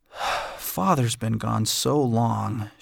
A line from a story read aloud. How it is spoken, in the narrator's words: sighed